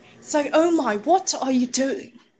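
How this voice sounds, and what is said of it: Attempted British accent. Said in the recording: “I can't do a British accent.”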